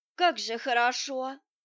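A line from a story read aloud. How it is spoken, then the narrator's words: Blissful moan. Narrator (Russian): блаженно застонала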